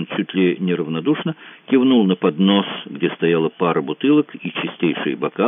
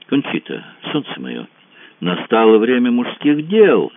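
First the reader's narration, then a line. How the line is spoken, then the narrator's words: Lightly ironic exclamation. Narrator (Russian): воскликнула она с легонькой иронией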